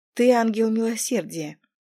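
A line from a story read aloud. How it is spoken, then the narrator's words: Soft. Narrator (Russian): мягко произнес Ассис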